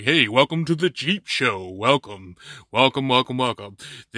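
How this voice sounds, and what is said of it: Radio announcer voice. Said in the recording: “in a little radio voice”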